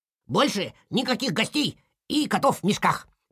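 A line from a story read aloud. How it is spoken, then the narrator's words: Squeaky chorus. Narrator (Russian): пропищали лемминги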